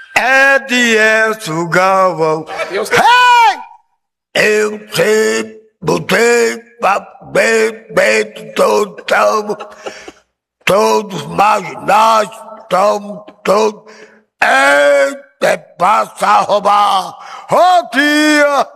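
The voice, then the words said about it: Impression of Paulo Sobral. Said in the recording (Portuguese): “Como é que Paulo Sobral fala e o senhor estava imitando ele aqui em off?”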